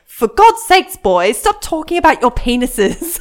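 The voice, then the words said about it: Weak put-on British accent. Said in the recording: “in this very British accent, which I didn't do very well”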